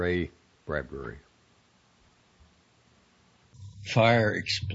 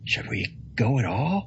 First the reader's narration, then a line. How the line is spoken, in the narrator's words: whispered Father Peregrine